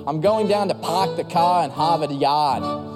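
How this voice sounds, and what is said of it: Attempted Boston accent, sounds Australian. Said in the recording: “Why does my Boston accent sound Australian, by the way?”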